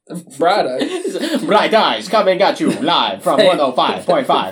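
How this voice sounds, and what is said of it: Put-on accent, bad radio DJ style. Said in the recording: “attempting the accent ... like bad radio DJ”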